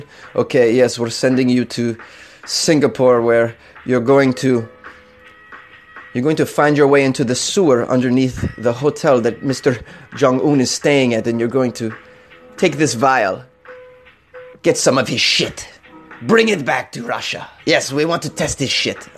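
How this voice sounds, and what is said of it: Mock Russian accent. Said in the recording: “I don't know why I chose Russia. I just felt like doing a different accent.”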